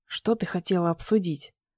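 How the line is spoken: Whisper. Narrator (Russian): шепнула

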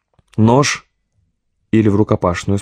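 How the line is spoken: Plain. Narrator (Russian): спросил Борис

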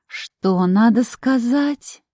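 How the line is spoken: Sugary singsong. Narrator (Russian): елейным голосом пропела я, изо всех сил стараясь быть любезной

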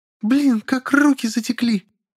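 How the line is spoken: Relieved squeal. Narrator (Russian): Взвизгнула Василиса, почуяв волю

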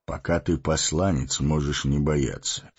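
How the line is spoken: Calm. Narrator (Russian): спокойно сказал Гэндальф

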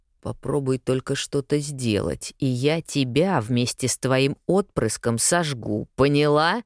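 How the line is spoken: Enraged bestial growl. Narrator (Russian): прорычал он разъяренным зверем

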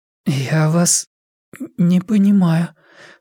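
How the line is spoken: Hoarse. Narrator (Russian): хрипло сказала мисс Клейторн

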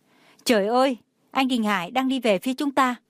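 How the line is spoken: Girl's excited shout. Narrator (Vietnamese): nghe thấy một bạn nữ hét lên

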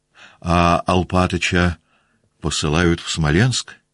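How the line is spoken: Plain. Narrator (Russian): спросила княжна Марья

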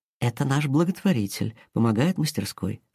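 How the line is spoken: Whisper. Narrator (Russian): шепнула ей Инга

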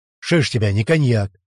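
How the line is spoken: Grumbling. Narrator (Russian): проворчал купец

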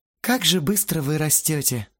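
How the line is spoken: Sad sighing mother. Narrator (Russian): с грустной улыбкой вздохнула мама

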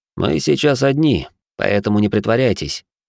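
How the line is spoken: Rather rude. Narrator (Russian): довольно грубо произнес, не желая с ней дальше миндальничать

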